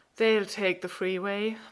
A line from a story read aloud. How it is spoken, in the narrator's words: Martin pants